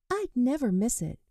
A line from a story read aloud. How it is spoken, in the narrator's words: she replied excitedly